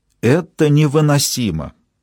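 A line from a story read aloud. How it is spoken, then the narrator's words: Exclamation. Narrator (Russian): воскликнула она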